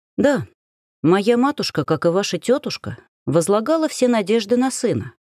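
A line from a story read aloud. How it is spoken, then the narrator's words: Plain. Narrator (Russian): сказала я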